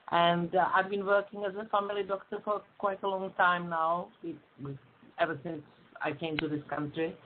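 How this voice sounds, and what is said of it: Czech accent. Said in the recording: “I'm originally from Prague, Czech Republic, so I've got an accent.”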